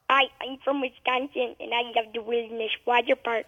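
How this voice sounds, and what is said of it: Put-on regional accent. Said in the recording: “That was incredible. That was perfect. ... you did a good accent.”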